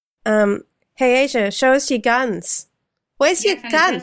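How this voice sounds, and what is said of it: Imitated Australian voice. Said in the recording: “they're both in Australia ... my bad impression of how they sounded on Skype ... Perfect.”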